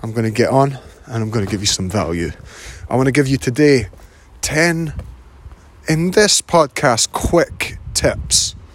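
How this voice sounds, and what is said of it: Raspy, hoarse voice. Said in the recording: “I'm fighting off a little bit of a cold, so my voice is a wee bit more Rod Stewart than usual”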